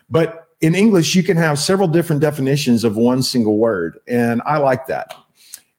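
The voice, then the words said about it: Texas accent. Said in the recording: “it's just my accent in texas we don't pronounce our l's right”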